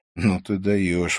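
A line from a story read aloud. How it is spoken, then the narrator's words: Breathed out. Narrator (Russian): выдохнул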